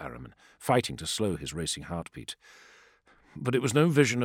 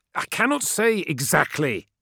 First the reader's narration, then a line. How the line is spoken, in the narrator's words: snapped Ahriman